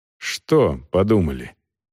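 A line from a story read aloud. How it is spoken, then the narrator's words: Cold question. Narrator (Russian): холодно спросил Волков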